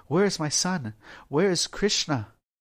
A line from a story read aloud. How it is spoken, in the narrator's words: their queen frantically asked